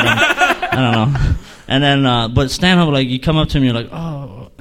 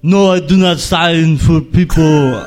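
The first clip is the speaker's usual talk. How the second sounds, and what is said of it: Bad Arnold Schwarzenegger impression. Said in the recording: “This is a bad Arnold Schwarzenegger impression.”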